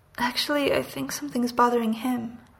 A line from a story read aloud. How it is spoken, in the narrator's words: Steve sighs